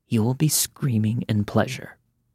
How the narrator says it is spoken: he whispered

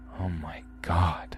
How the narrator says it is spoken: I whispered

